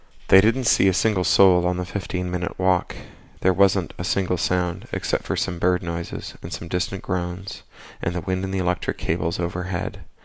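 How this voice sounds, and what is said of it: Hoarse, muzzy voice from a cold. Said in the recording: “I've come down with a vicious cold ... you'll excuse me if I sound a little muzzy and hoarse.”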